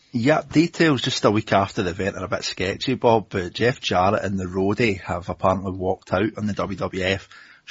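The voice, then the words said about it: Scottish accent. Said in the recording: “If you're a fan of Scottish accents, this is always going to happen”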